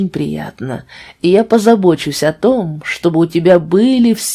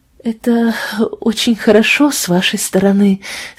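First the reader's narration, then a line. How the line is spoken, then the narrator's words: Trembling voice. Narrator (Russian): сказала Фиби дрожащим голосом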